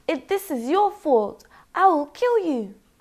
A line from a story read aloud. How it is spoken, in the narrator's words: He shouted